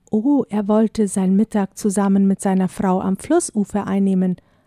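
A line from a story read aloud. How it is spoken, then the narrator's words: Plain answer. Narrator (German): antwortete er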